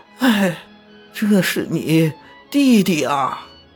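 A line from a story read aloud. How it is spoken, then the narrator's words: Old lady crying. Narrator (Chinese): 太夫人哭着对张别驾说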